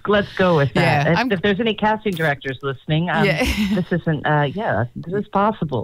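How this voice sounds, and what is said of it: Deep, unwell-sounding voice. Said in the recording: “I know you're not feeling very well ... My voice is sounding a little less than wonderful ... when you've got the deeper voice”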